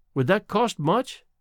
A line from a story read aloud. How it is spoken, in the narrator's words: she asked timidly